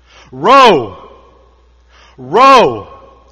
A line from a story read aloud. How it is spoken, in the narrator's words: he bellowed